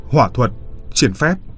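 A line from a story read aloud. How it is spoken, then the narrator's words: Commanding shout. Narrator (Vietnamese): ông ... quát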